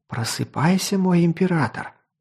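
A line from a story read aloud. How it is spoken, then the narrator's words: Whisper in ear. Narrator (Russian): прошептал Аскади на ухо Талису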